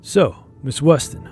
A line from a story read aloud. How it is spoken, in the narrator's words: I said